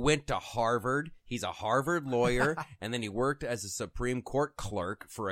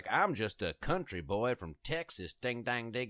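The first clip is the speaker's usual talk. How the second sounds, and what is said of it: Ted Cruz impression, country Texas accent. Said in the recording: “Let's stop with the accent”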